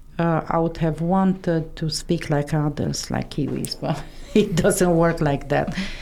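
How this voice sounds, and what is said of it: Non-native English accent. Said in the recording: “I have an accent. The accent will never go.”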